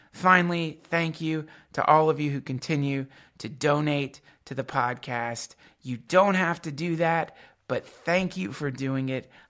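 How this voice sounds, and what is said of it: Raspy voice. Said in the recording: “raspy, seemingly lesbian voice”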